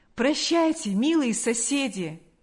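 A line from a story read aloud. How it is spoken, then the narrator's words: Exclamation. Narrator (Russian): воскликнул он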